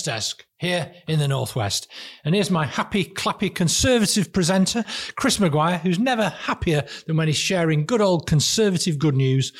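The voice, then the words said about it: Burnley accent. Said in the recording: “likes your Burnley accent. ... that he likes your Burnley accent.”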